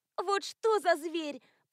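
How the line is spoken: Groaning. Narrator (Russian): простонала Альма

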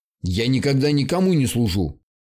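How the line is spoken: Sharp rising creature voice. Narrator (Russian): резко взвился голос твари

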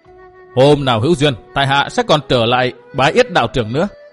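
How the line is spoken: Hearty loud laughter. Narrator (Vietnamese): Cố Minh Viễn ha hả cười to, nói

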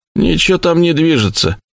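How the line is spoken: Displeased voice. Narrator (Russian): ответил недовольным голосом Сэм

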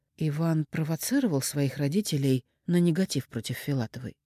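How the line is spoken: Plain. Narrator (Russian): спросила у Клопкина

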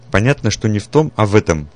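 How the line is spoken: Stern. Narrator (Russian): строго сказал Петрович

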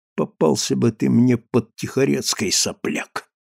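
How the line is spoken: Whisper. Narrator (Russian): прошептал

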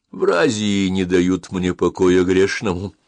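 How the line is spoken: Gloomy tone. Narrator (Russian): мрачным тоном произнес он

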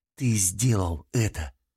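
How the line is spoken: Whisper. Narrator (Russian): прошептала она

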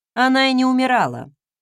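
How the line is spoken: Dry, reluctant. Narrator (Russian): сухо отозвалась я, категорически не желая мусолить самопроизвольное возрождение одной из моих предшественниц

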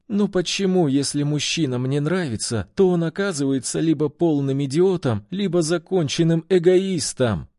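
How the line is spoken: Words dissolving into sobs. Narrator (Russian): Окончание фразы потонуло в рыданиях

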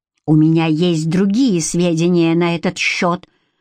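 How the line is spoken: Hissing. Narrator (Russian): прошипел куратор

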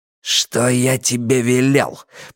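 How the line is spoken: Growling. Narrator (Russian): прорычал Каз

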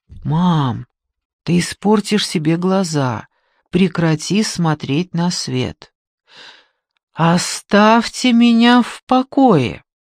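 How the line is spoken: Quiet, gentle, from afar. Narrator (Russian): тихо сказал издали, чтобы ее не напугать

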